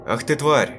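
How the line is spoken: Shout. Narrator (Russian): крикнул я

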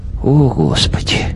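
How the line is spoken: Mutter. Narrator (Russian): пробормотал Свешников

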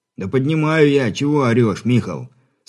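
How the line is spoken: Rueful sighing reply. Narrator (Russian): Сокрушенно вздохнув, ответил Брыль

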